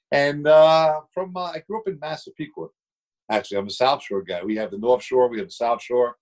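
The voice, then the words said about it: New York accent. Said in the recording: “Hence the accent, New York.”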